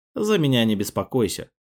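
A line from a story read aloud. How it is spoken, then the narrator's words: Wry grunt. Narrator (Russian): хмыкнул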